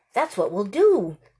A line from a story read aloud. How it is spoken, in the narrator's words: Lena said excitedly